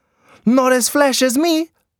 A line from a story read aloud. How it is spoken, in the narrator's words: she cried